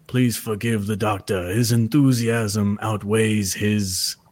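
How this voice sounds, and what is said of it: Imitates another person's voice. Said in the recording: “picture it in his very voice. Specific accent. ... Werner Herzog”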